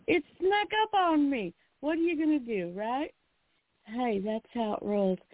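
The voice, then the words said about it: Southern American accent. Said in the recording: “don't let the southern accent fool you ... I didn't talk like this a year ago”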